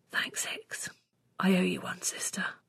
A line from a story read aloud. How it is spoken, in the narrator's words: I let out a huge breath and whispered